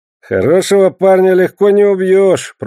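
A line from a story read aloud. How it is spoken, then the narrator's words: Grumbling. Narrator (Russian): проворчал Эльма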